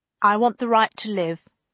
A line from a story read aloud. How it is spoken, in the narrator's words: tells them, as firmly as he dares